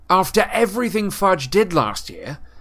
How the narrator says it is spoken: said Harry angrily

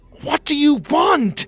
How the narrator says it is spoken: Pockets shouted

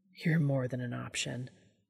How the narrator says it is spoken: he murmured into the side of Castiel's damp cheek

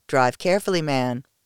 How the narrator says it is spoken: said with a chuckle

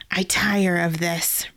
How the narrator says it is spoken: Riddell snarled

